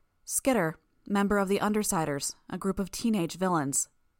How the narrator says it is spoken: Miss Militia replied

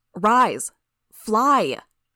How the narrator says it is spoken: shouted

